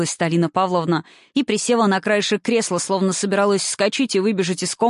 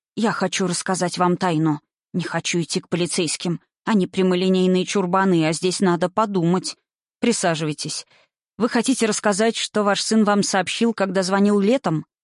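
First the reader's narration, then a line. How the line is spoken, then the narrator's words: Plain. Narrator (Russian): спросил Эрик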